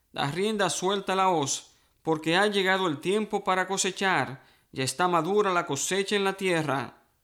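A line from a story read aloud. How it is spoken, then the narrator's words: Shouting. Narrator (Spanish): otro ángel le gritó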